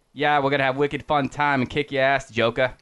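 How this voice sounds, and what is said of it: Mock Boston accent. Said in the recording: “I don't want Batman to have a Boston accent.”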